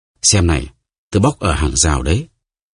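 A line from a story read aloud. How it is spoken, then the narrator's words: Moved, mysterious mutter. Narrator (Vietnamese): vẻ bí ẩn, … lẩm bẩm xúc động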